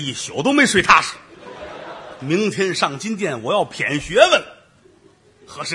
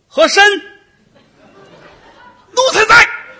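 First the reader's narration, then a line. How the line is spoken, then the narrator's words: Calling out. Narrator (Chinese): 皇上已经喊了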